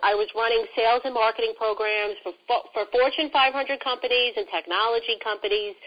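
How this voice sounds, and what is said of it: New York accent. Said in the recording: “if you can tell, I am all New York ... I love my accent.”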